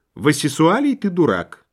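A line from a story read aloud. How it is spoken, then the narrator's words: Calm wife. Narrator (Russian): спокойно ответила жена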